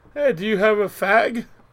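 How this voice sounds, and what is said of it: Put-on British accent. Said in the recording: “I'll be in a British accent or something.”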